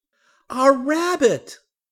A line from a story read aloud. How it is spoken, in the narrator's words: cried Jessie and Henry